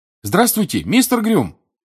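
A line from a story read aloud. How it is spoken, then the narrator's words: Shouted. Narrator (Russian): крикнул Гарри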